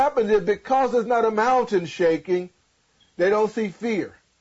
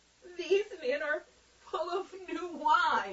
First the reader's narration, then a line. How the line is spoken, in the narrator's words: Others mocking said